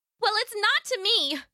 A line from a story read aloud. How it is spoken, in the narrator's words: she yelled back